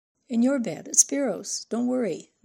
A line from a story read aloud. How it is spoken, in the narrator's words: the Anne laughed